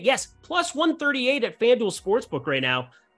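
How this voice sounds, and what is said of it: Yelling, loud excited delivery. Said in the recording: “I don't know why I'm yelling, but I am.”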